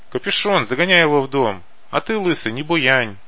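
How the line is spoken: Shout. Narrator (Russian): крикнул Паля бомжам

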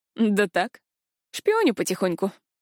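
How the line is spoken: Wry chuckle. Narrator (Russian): хмыкнул Решел

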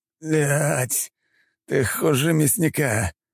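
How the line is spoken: Groaning, barely conscious man. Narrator (Russian): простонал мужчина, у которого лишь чудом сознание не отключилось

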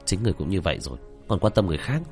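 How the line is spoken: Startled mutter. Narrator (Vietnamese): Tạ Vô Tình cũng giật mình, lẩm bẩm

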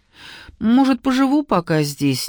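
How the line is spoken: Uncertain. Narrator (Russian): неуверенно закончила

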